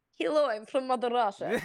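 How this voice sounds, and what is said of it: Bad put-on Russian accent. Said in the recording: “That was so bad! ... It's awful. Russian accents are just...”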